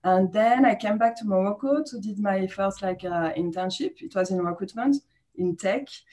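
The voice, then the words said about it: French accent. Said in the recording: “I still have my French accent”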